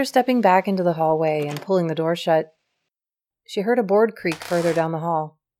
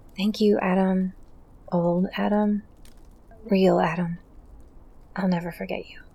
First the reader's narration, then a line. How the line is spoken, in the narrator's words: whispered